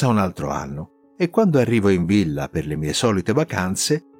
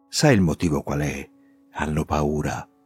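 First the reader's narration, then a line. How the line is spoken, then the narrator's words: Conspiratorial whisper. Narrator (Italian): il figlio Giorgio con aria di complotto mi dice sottovoce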